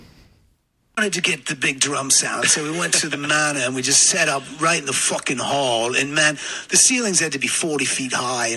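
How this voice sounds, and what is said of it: Bad put-on English accent. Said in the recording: “That is the worst English accent attempt I've ever heard ... Dick Van Dyke and Mary Poppins did it better than you on that.”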